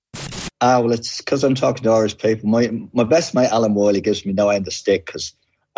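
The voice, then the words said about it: Irish accent, deeper relaxed tone. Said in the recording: “some sort of ancestry maybe over the Irish Sea ... the real accent came through ... The whole tone of it changes as well ... Is it getting deeper”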